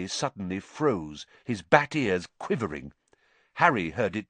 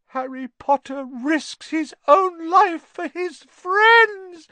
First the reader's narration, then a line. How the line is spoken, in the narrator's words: moaned Dobby, in a kind of miserable ecstasy